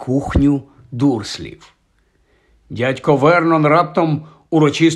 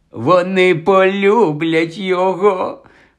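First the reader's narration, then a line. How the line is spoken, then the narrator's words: Delighted exclamation. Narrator (Ukrainian): в захваті вигукнула тітка Петунія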